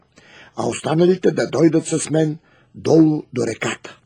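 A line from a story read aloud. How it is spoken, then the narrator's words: Commanding. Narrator (Bulgarian): заповядал царът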